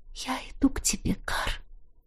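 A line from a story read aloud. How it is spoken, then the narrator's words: Barely audible whisper. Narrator (Russian): едва слышно прошептала я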